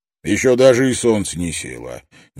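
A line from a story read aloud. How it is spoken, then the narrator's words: Indistinct grumble. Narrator (Russian): невнятно проворчал он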